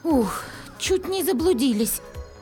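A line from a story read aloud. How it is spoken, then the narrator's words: Relieved happy exhale. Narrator (Russian): Обрадованно выдохнула Света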